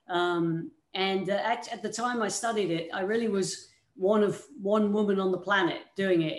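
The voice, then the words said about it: British accent. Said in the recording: “you can probably tell by my accent, I'm not originally from these parts. I came from the United Kingdom”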